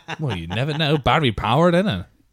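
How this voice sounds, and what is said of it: Put-on Dublin accent. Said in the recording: “Why has he suddenly gone like he's living back in Dublin? ... I do like to slip into him sometimes. ... The accent”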